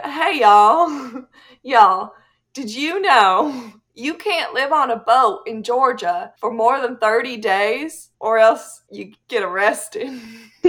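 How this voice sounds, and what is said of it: Put-on Southern US accent. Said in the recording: “Let me practice my southern accent.”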